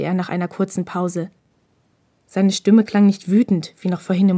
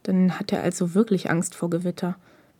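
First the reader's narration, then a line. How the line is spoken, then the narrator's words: Murmured to himself. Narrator (German): murmelte Takeda mehr zu sich selbst denn an Hinata gewandt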